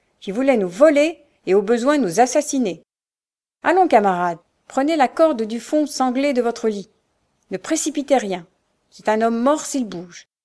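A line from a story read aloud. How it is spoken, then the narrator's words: Cold. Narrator (French): répondit Peter froidement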